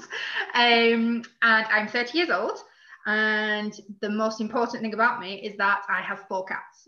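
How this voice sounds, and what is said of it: Very broad northern English accent. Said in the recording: “you do not sound like that. I'm from Manchester originally, hence the very northern, very broad accent.”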